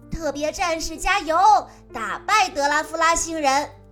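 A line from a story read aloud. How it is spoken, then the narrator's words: Group shouting. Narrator (Chinese): 大家还是喊着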